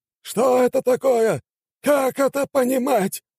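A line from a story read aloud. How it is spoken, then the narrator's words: Angry shouting. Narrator (Russian): ругался и кричал высший перс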